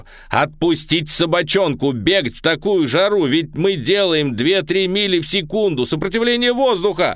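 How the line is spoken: Shout. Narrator (Russian): заорал я

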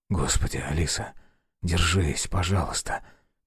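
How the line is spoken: Whisper. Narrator (Russian): прошептал Александр

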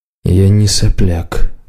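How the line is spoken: Gloomy lizard voice. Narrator (Russian): мрачно сказал варан

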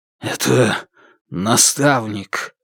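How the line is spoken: Strangled voice. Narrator (Russian): Сдавленным голосом он произнес

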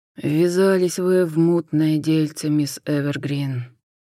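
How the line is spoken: Sighing. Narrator (Russian): вздохнул Хосе

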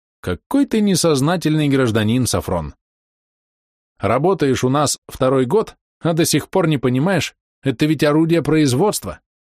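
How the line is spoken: Cheerful smiling speech. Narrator (Russian): Он бодро улыбнулся в лицо Головани и сказал

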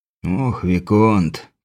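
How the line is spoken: Mumble. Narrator (Russian): пробормотал сиятельный

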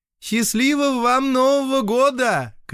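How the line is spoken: Cashier shouting after someone. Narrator (Russian): крикнула вдогонку кассирша

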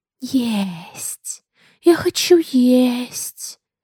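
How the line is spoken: Creature hissing. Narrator (Russian): шипело оно

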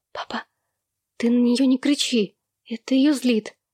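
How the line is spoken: Hurried whisper, young girl. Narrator (Russian): девочка торопливо зашептала

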